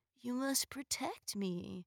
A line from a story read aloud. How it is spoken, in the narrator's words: he mumbled into her neck